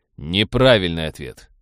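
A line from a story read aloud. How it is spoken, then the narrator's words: Cold. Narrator (Russian): холодно произнес Роджер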